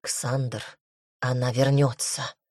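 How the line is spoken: Whisper. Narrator (Russian): шепнула главная жрица

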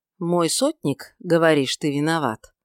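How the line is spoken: Cold indifferent voice. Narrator (Russian): заметил он, наконец, холодным, равнодушным голосом

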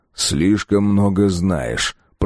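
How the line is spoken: Grumbling. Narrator (Russian): проворчал я

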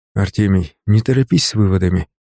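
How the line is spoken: Quiet. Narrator (Russian): сказал я тихо

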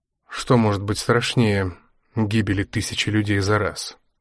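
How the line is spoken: Flat colorless question. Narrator (Russian): бесцветным голосом спросил Мармеладов

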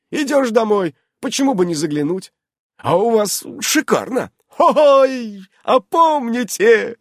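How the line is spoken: Loud laughter. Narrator (Russian): Захохотала Аманда

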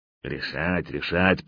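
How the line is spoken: Elephant muttering. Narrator (Russian): пробормотал слон

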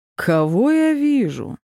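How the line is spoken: Mocking. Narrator (Russian): Насмешливым тоном выдал он

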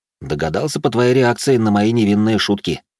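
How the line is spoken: Plain. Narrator (Russian): ответил я

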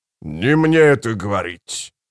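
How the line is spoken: Growled. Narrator (Russian): прорычал Кафал

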